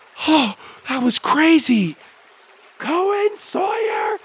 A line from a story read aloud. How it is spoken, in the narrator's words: a voice shout from the house